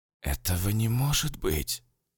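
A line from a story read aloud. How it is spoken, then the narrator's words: Forced calm, voice cracking. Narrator (Russian): Я старался говорить спокойно, но голос задребезжал и дал петуха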